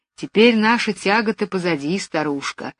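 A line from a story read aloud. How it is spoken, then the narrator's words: Affectionate. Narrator (Russian): ласково говорил он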